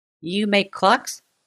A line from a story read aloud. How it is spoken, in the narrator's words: she said sweetly